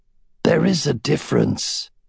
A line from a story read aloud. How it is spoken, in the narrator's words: Saphira snorted and said to him